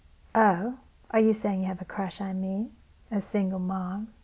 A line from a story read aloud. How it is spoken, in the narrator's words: she asked in an even more teasing tone